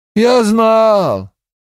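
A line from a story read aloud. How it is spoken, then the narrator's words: Hoarse reply. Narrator (Russian): хриплым голосом отвечал странник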